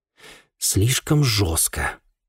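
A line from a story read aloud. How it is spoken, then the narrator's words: Hesitant, forced out, young man. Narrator (Russian): помявшись, выдавил молодой инспектор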